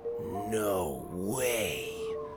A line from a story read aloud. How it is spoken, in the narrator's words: Sawyer breathed